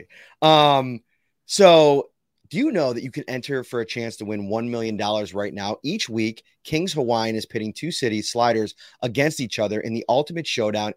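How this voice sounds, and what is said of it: Slightly hoarse voice. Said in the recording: “My voice is a little bit hoarse because I was screaming at 7-year-olds for two hours.”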